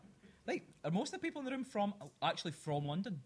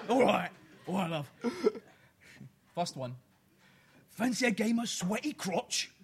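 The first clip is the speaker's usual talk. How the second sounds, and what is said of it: Put-on Cockney accent. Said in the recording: “should I do it in a Cockney accent ... I do a Cockney accent?”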